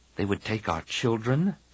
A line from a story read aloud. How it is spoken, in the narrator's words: Tian murmured